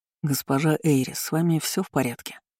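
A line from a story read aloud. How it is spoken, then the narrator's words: Quiet question. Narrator (Russian): тихо спросила Ренца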